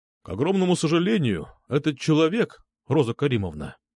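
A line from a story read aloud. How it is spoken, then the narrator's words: Calm. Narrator (Russian): спокойно сказал нотариус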